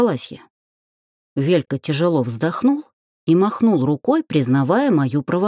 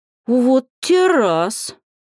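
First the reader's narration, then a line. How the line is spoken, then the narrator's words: Drawn-out drawl. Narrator (Russian): протянула Алька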